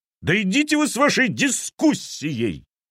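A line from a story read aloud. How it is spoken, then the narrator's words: Yelling. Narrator (Russian): заорал капитан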